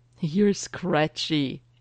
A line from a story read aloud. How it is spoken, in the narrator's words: he giggles